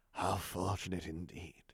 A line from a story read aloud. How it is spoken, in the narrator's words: the Emperor rasped out